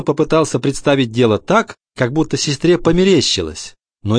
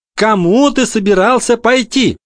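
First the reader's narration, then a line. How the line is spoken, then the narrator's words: Shouting. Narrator (Russian): прокричала Гретель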